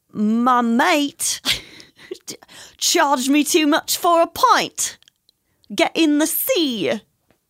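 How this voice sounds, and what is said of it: Poor attempt at British accent. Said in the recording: “But like British ... No, that was horrible.”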